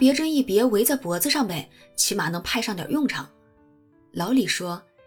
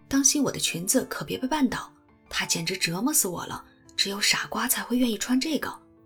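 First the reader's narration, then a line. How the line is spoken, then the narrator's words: Low voice. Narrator (Chinese): 他低声对老李说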